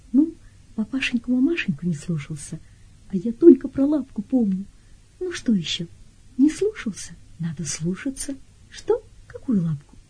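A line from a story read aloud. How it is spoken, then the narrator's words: Barely audible whisper. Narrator (Russian): Я едва вышептываю свой слез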